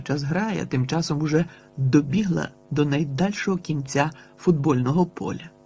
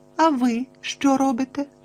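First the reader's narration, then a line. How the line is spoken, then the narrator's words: Innocent-voiced question. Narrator (Ukrainian): невинним голосом перепитала Тіна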